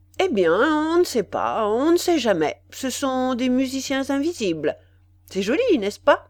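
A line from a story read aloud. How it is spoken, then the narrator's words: Slightly impertinent tone. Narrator (French): me dit-il d'un ton légèrement impertinent et qui pourtant rappelait un peu l'influence et l'accent de Swann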